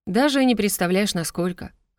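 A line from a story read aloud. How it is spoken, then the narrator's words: Amused snort. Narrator (Russian): хмыкнул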